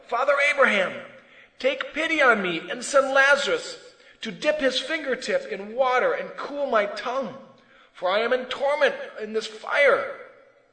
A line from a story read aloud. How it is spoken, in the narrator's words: So he called out